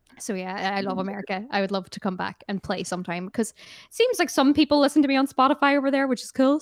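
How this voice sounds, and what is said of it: American-influenced accent. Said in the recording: “I am actually obsessed with American culture, as you can probably tell from my accent, which is just like someone who's watched way too much NBC comedies.”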